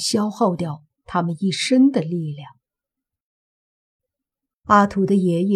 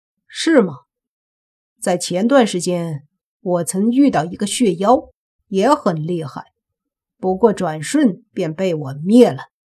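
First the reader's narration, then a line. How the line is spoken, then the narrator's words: Cold sneer. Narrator (Chinese): 莫凡听了，则是冷笑一声，说道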